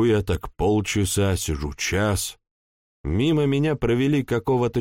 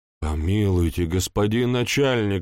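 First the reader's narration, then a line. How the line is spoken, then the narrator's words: Pleading. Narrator (Russian): взмолился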